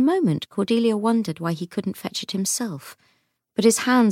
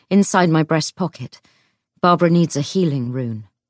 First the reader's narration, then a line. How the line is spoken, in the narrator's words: he said roughly